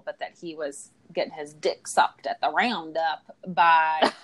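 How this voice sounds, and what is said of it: Put-on Texas accent. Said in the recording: “that's my Texas accent”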